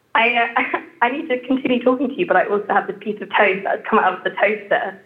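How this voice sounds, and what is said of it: English accent. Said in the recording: “how delightfully English”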